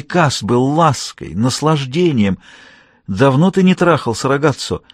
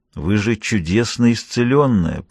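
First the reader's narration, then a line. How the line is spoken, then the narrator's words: Through gritted teeth. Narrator (Russian): процедил я сквозь зубы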